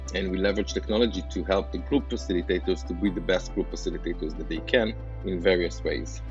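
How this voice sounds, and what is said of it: Israeli-accented English. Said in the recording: “as you can tell by my accent, in Israel or in the States”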